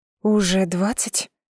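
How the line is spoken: Surprised breathy exclamation. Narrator (Russian): С удивлением выдохнула

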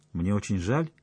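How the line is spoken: Calm reply. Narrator (Russian): ответила она все так же спокойно

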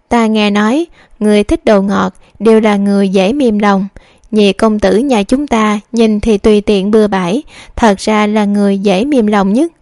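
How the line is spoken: Speaking amid laughter. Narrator (Vietnamese): Thúy Trúc và Thúy Vân đều bật cười, Thúy Vân cũng nói

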